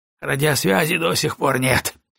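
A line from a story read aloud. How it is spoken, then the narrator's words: Snorting. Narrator (Russian): фыркнул он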